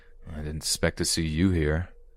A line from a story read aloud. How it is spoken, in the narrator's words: I growled